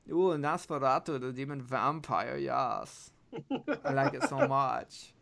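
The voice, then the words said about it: Put-on German accent. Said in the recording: “Or in German ... doing that voice”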